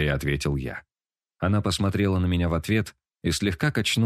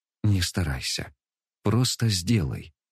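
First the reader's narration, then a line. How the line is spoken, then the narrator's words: Soft request. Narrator (Russian): тихонько попросила она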